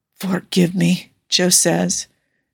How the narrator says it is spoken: his voice a rasp

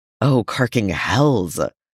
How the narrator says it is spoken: hisses

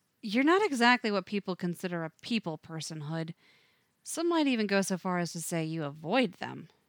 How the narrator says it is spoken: Too close for Tim to think right, as he blurts

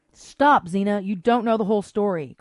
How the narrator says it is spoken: cried Gabrielle

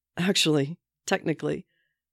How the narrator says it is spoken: Steve says, barely holding the giggles in

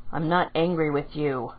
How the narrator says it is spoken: Kakashi said in a monotone

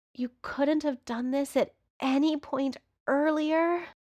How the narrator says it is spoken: Patrick groans when Johnny starts kissing down his neck

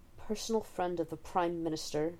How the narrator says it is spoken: snarls

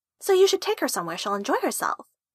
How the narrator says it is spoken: Honey said cheerfully

